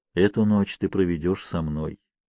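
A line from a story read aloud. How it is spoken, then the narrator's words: Tender, affectionate. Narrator (Russian): ласково произнес Казанова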